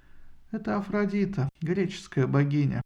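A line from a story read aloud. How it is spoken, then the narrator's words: Sad, tired voice. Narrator (Russian): грустным и усталым голосом ответила Исида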